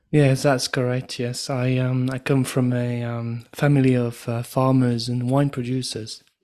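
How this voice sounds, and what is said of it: Mild French accent. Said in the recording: “your accent, which is not very strong, but that you were born in Burgundy in France”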